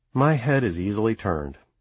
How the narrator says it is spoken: she sighs

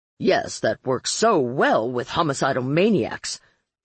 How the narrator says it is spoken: Marlowe snarled

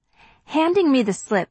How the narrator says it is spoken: he says cheerfully

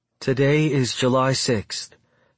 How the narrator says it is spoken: she says, her voice soft and nervous

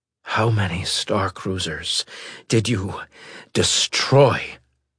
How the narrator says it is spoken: Fletcher asked, panting as he did

